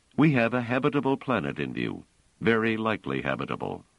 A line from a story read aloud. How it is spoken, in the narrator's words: Treves said quite calmly